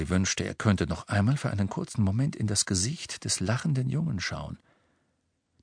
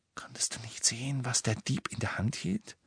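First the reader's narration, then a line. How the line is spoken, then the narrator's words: Whispered after pause. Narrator (German): Nach einer Weile flüsterte Ron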